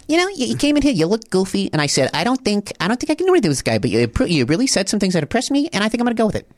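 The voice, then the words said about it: Impression of Barbara from Shark Tank. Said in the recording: “my Barbara impression ... My Barbara.”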